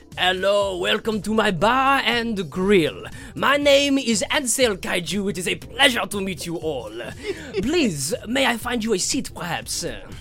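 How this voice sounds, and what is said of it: Put-on French accent. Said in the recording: “the Tarrasque has a French accent”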